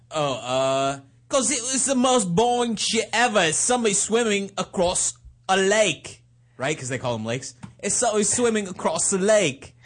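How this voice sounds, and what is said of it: Put-on British accent. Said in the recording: “do your criticism of her with a British accent ... Your accent's getting better over the last week ... Now it's worse.”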